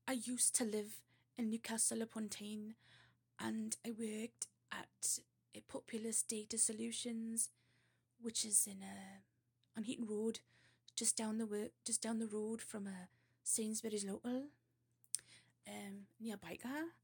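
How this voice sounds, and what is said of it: Bad put-on Geordie accent. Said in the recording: “a really bad Geordie accent. You really have to work your mouth and put your lips a certain way”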